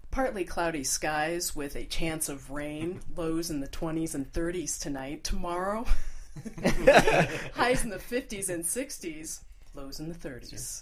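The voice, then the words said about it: Mock radio announcer delivery. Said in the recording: “your best radio voice”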